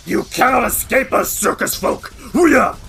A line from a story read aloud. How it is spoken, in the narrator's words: he snarls and says